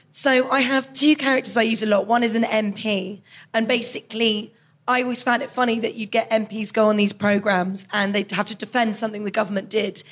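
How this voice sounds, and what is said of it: Hoarse, strained voice. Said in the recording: “my voice is really, it's really going. It's the fringe.”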